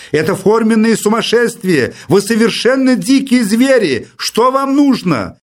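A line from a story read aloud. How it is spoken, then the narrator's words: Irritated shout. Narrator (Russian): закричал в раздражении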